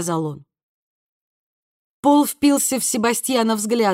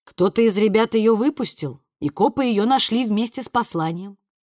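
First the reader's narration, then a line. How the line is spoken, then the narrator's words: Calm, confident. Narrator (Russian): пояснил Себастьян, крайне довольный тем, как спокойно и уверенно звучит его голос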